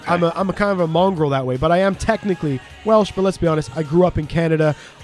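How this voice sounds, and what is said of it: Canadian English accent. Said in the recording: “as you can tell from my accent, I don't sound like I'm Welsh ... No, you're Canadian”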